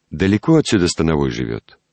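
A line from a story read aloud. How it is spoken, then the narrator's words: Plain. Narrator (Russian): спросил я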